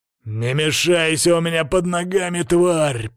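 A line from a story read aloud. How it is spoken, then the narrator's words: Growled. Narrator (Russian): прорычал Крут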